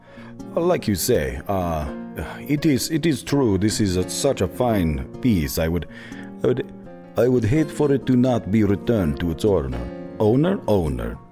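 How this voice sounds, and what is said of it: Inconsistent put-on accent. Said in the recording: “My accent is all over the place.”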